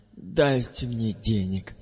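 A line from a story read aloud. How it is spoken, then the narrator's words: Giggling. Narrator (Russian): я при этом хихикаю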